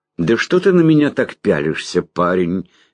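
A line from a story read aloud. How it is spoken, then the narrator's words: Cheerful question. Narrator (Russian): весело спросил Лонли Локли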